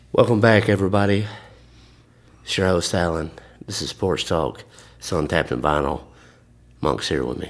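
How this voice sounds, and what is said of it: Deep throaty baritone radio voice. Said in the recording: “very deep and throaty and baritone there? ... The radio talk. ... This is my radio voice.”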